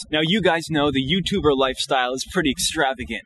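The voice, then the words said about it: Fake YouTuber presenter voice. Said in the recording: “does the fake YouTube voice”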